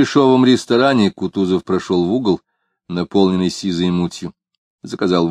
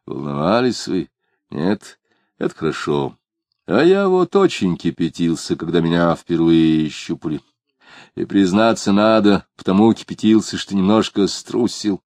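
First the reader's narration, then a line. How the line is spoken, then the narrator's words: Caring, gentle. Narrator (Russian): Кутузов заботливо и даже ласково продолжал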